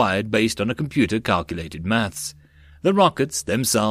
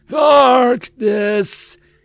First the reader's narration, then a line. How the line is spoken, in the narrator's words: Itsu screamed